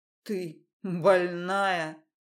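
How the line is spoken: Hoarse rasp. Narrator (Russian): прохрипел Рома

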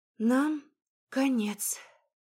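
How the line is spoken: Sighing. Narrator (Russian): Вздохнул Вилар

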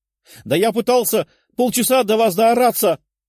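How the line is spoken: Shouted out. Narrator (Russian): выкрикнул он

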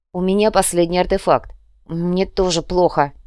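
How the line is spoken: Snapping back. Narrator (Russian): огрызнулась Инга

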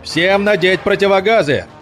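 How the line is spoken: Shouted command. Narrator (Russian): закричал ефрейтор Теплинский

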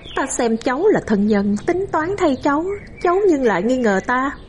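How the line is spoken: Smiling. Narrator (Vietnamese): bà chỉ mỉm cười

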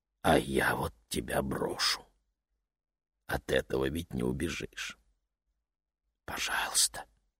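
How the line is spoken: Whisper, mother. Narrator (Russian): прошептала мама

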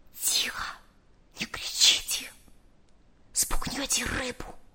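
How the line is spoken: Barely audible whisper. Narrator (Russian): еле слышно прошептал

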